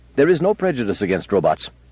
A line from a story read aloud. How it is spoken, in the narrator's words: said Amadeiro quickly